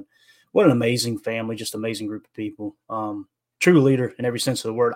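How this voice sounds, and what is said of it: Tennessee Southern American accent. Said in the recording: “I'm located in Tennessee. You probably tell with the accent.”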